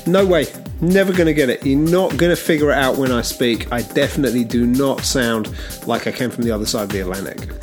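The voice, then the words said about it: British accent. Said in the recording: “is visiting from the UK, and you'll pick that up off of his accent.”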